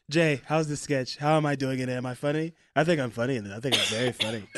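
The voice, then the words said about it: Imitates another person's voice. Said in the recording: “That's a pretty good Trump. ... My Trump impression is it's a work in progress.”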